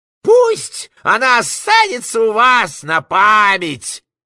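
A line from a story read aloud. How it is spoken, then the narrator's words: Bleating goat-like shout. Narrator (Russian): козлиным голосом прокричал Фагот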